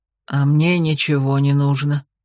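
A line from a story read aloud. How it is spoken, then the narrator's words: Gruff old man's grunt. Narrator (Russian): буркнул дед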